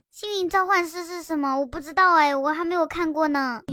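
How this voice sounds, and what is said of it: Put-on child's voice. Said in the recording (Chinese): “我怕你们说我嗓子哑，所以我直接用直接用儿童音跟你们聊天吧。”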